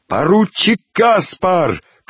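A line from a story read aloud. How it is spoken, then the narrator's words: Shouted. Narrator (Russian): крикнул один из подбежавших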